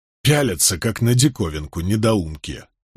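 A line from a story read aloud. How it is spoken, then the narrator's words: Displeased grumbling. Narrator (Russian): недовольно проворчал Чаури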